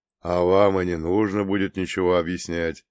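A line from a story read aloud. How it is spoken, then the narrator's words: Weary. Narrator (Russian): устало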